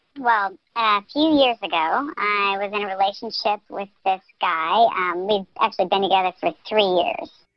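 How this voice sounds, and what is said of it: Electronically disguised voice. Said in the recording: “Your phone line is being run through the voice changer”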